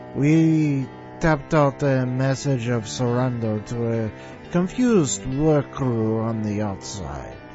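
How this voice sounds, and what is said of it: Bad put-on French accent. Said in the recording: “What a lousy French accent. ... don't do it in a bad accent like that.”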